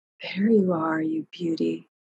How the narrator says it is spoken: she breathed

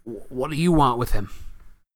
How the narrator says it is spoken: said Ernie in a quavering voice

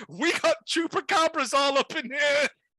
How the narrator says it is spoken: one kid screams

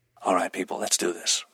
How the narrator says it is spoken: Roland said quietly

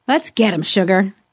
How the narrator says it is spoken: Johnny muttered

